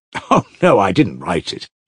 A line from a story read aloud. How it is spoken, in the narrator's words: laughed Ivan